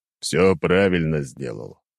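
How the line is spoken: Deep bass voice. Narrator (Russian): пробасил Леонид

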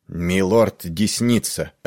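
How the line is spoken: Hard, stern announcement. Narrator (Russian): объявил Пиццель жестким голосом

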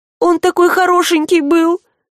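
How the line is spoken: Miserable sobbing. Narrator (Russian): Всхлипнула девушка, чувствуя себя хуже некуда

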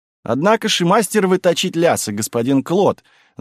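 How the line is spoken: Laughing remark. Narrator (Russian): заметила, смеясь, тетушка Франсуа

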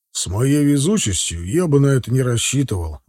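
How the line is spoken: Grim reply. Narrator (Russian): мрачно ответил подполковник

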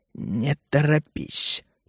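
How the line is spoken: Soundless whisper. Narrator (Russian): прошептал он одними губами

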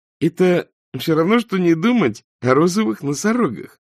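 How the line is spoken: Interjecting. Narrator (Russian): вставил Найджел

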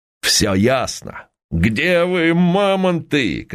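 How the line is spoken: Loud laughter. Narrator (Russian): Константин захохотал

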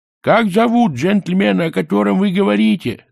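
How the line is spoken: Yelling, male. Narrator (Russian): завопил он

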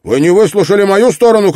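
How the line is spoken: Shouted. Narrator (Russian): крикнул Кулум

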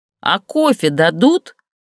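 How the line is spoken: Shouting across room. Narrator (Russian): прокричала она в сторону барной стойки

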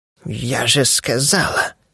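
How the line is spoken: Hissed through teeth. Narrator (Russian): прошипела сквозь зубы

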